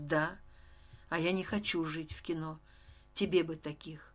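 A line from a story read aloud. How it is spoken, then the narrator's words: Breaking off abruptly. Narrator (Russian): осекся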